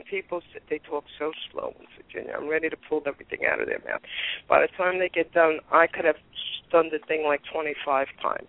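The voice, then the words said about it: Brooklyn accent, no southern drawl. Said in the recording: “I know I have an accent ... how come you don't have a southern drawl? ... You could take the girl out of Brooklyn, but you can't take the Brooklyn out of the girl. I said, I'm not losing my accent.”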